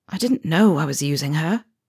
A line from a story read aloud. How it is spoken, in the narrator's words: he mutters